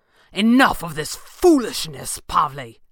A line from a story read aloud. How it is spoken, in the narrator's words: Thatcher snapped